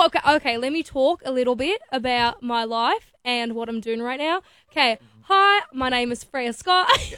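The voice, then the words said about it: Put-on Australian accent. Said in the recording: “can you do a good Australian accent? ... How well do you do an Aussie accent? ... That was really good.”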